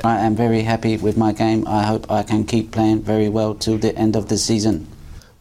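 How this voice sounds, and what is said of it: Robotic voice. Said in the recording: “he did a post-match interview as a robot ... He decides to put this robot voice on ... you played a bit like a robot tonight”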